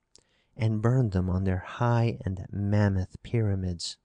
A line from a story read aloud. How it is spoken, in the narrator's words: she whispered